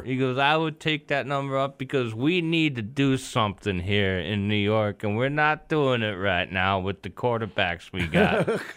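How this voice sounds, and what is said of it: Impression with Alabama accent. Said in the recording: “Nice Bama accent there, buddy. ... That was a decent Joe Namath.”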